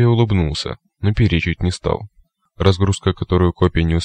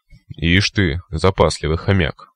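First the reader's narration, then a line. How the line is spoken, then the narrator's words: Scoffing snort. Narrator (Russian): хмыкнул копия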